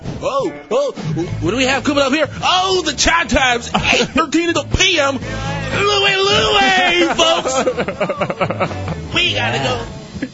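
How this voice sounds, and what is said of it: Exaggerated radio announcer voice. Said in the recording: “this stupid radio voice ... Who even comes up with a radio voice?”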